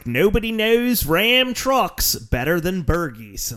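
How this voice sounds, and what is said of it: Thick Delco accent impression. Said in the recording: “that's just the filthiest Delco accent I've ever heard”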